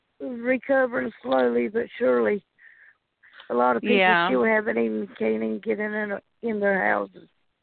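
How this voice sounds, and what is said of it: Weak, sick-sounding voice. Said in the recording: “I'm sorry I can't hardly talk. My voice got up a little bit sick this morning.”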